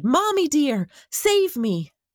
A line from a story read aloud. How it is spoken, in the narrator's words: jumping into the darkness was scary, and he shouted